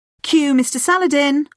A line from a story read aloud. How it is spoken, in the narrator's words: one of the students shouted